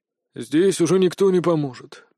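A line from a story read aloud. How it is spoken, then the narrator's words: Mumbling healer. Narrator (Russian): промямлил целитель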